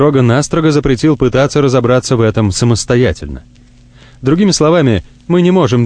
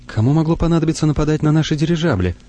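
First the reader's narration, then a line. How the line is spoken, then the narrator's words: Frightened whisper. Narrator (Russian): испуганно шепчет Тамара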